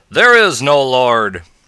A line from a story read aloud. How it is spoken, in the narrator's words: he would yell after her